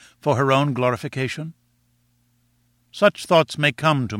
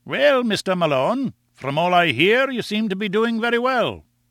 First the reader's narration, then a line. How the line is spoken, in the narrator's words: he said in his kindly Scotch accent